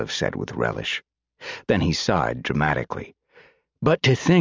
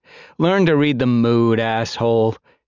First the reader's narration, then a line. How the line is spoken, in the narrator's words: she said teasingly